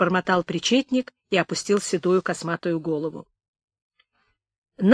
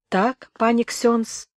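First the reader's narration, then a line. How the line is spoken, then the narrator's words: Clerk's muffled agreement. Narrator (Russian): глухо согласился причетник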